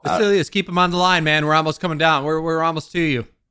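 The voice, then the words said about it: Yelling from a distance. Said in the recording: “They can fucking hear you if you're yelling at me down the fucking hill.”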